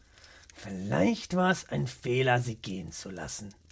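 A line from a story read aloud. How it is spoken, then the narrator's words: Murmured. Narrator (German): murmelte er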